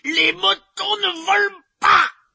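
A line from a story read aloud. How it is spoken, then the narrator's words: Shouted. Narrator (French): hurla-t-il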